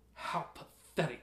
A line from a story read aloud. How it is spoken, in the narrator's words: Akhem hissed